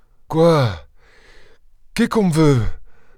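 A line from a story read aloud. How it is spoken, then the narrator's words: Stammered. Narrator (French): balbutia le père Traînard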